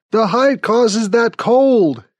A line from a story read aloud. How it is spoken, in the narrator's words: he shouts